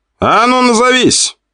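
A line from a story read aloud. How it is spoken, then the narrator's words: Young man barking. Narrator (Russian): рявкнул парень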